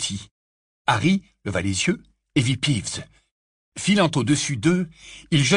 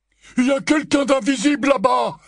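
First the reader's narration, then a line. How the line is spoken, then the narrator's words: Masked man exclaiming. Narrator (French): s'écria un mangemort masqué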